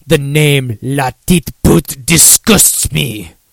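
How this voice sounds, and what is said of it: Put-on French accent. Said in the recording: “I do my French impression there”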